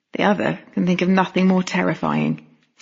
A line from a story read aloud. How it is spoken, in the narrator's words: Sam murmured into my ear